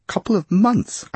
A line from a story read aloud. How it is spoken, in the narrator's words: I squeaked